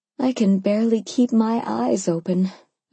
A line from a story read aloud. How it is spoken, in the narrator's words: I replied, yawning hugely